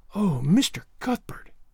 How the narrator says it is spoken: she whispered

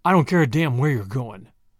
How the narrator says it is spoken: growled Tommy

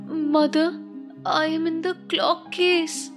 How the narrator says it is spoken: a soft voice cried

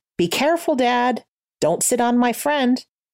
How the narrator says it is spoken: his son called out

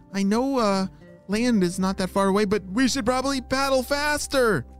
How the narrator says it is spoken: she shouted

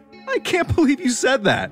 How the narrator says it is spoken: David said between tears of laughter

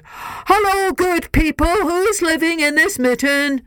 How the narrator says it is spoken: a bear stopped and bellowed

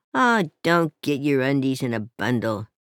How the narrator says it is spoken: she grumbled

